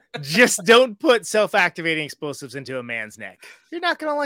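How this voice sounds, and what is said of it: Usual voice. Nothing is said of it.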